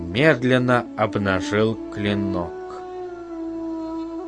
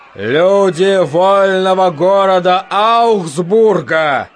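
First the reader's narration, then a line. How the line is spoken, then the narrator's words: Shout, trying not to tremble. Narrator (Russian): крикнул Петр, надеясь, что голос его не дрожит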